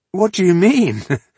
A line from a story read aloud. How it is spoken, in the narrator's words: He laughed in embarrassment